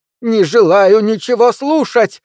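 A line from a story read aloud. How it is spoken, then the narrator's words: Yell. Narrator (Russian): завопила мисс Троссет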